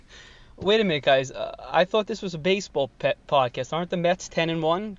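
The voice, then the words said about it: Strong New York accent. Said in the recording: “anybody with that accent... He has a New York accent... it's pretty like Yiddishy”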